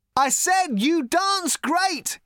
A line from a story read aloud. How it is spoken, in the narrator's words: he shouted